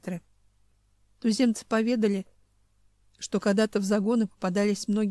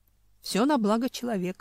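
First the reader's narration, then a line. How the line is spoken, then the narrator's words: Grim smirk. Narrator (Russian): мрачно усмехнулся Семен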